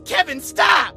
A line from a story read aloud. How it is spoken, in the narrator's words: shouted